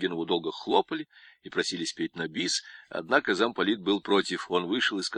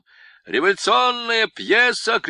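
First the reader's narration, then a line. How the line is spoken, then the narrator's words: Shouted announcement. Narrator (Russian): выкрикнул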